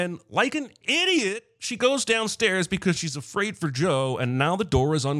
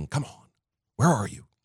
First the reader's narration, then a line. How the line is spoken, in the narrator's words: Sydney whispering